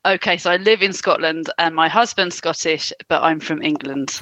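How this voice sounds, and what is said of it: Clear English accent. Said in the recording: “I thought you sounded English ... Why is she so clear?”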